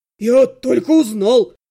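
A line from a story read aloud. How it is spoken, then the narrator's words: Shout. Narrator (Russian): крикнул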